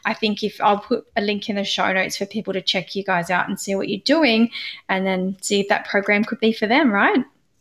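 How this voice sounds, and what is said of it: Australian accent. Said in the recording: “I loved listening to your Australian accent.”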